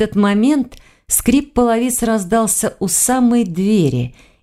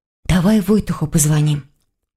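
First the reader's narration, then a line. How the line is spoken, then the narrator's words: Trembling voice. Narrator (Russian): дрожащим голосом предложила Саша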